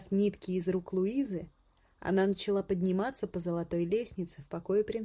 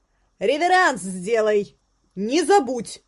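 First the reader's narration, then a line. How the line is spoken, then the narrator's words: Shout. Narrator (Russian): крикнула Луиза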